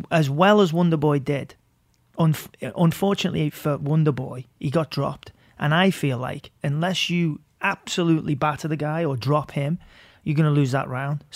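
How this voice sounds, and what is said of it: Liverpool accent. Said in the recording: “you're from Liverpool and the fact that you have an awesome accent.”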